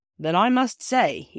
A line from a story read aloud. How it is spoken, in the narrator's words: said, and he said it rather sternly